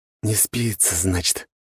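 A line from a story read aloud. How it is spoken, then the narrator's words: Said through clenched teeth. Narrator (Russian): процедил он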